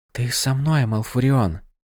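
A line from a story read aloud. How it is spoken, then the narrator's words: Whisper in ear. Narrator (Russian): шепнула Тиранда ему в ухо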